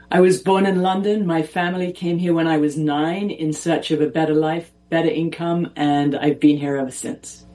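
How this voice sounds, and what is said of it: Speaks with a noticeable accent. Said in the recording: “you have a beautiful accent. I'm just curious where it's from.”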